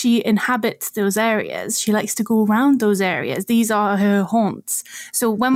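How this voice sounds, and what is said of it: Usual voice. Nothing is said of it.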